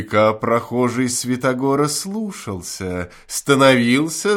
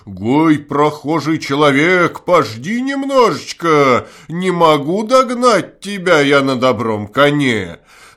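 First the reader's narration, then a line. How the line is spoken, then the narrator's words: Loud shout. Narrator (Russian): Закричал тут Святогор да громким голосом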